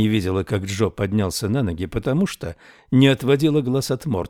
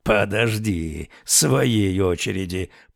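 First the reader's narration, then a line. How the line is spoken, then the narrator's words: Growl. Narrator (Russian): прорычал он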